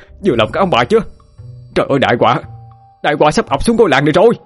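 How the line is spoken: Screaming in despair. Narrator (Vietnamese): Hậu gào lên trong vô vọng

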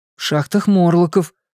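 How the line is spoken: Steady answer, no stutter. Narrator (Russian): ответил Билл безо всякого заикания

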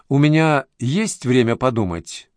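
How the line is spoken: Plain. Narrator (Russian): спросила Зорина

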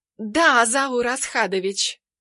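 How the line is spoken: Purring, sly woman. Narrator (Russian): мурлыкает мерзавка

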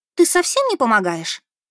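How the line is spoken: Laughing. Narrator (Russian): Засмеялась Адель

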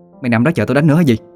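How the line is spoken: Loud scolding. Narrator (Vietnamese): mới lớn tiếng nạt

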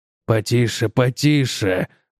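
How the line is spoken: Muttered. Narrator (Russian): пробормотал Гроувс

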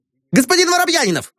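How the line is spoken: Shouting. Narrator (Russian): закричал он

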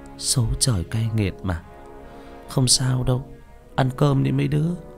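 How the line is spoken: Halting sighing speech. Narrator (Vietnamese): Con Hồng chỉ biết thở dài, nói đứt đoạn

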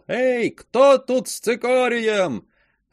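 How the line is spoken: Loud distant shout. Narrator (Russian): Громкий голос издалека кричал

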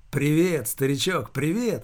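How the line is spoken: Joyful, smiling greeting. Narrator (Russian): Радостно улыбаясь

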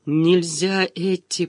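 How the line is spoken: Hoarse croak. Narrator (Russian): прохрипел я

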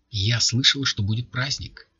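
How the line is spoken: Plain. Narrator (Russian): сказала девушка

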